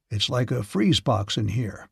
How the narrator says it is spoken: he said in a deep voice

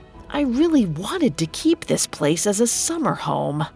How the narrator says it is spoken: He muttered to himself

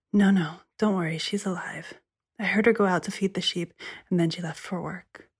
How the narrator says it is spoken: The sister said, whispering

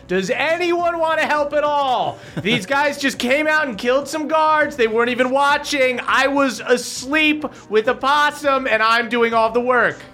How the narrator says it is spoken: Egwene is going to take a couple of shots at these guys and yells

